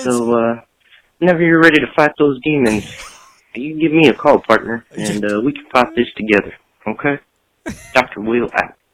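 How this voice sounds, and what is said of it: Electronically altered disguised voice. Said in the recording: “with a voice changer”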